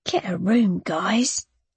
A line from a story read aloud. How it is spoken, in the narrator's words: she whispered